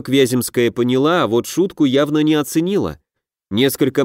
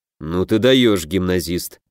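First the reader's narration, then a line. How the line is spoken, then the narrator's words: Grumbling. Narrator (Russian): проворчал Дельвик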